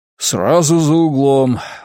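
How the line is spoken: Breathless. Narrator (Russian): выдохнул архиепископ

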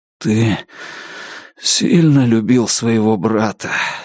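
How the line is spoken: Hoarse. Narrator (Russian): сипло сказал Алан

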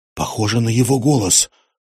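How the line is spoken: Tense whisper. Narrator (Russian): напряженно прошептала она

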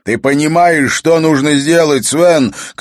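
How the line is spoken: Shouted. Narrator (Russian): крикнул он

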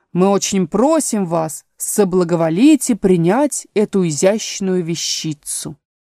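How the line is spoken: Solemn. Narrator (Russian): Додо торжественно сказал

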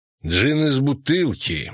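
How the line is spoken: Grumbled. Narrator (Russian): буркнул Вратимир

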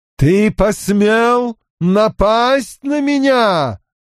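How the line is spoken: Roaring like a hurricane. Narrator (Russian): ураганом проревел голос Морейн

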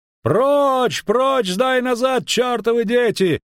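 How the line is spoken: Horseman shouting. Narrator (Russian): кричал конный

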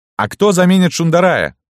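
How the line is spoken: Shouted after someone. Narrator (Russian): крикнул вслед Золотуха

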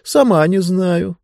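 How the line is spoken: Sighing. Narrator (Russian): вздохнула книга

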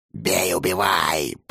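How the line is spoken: Growling. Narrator (Russian): прорычала Горгона

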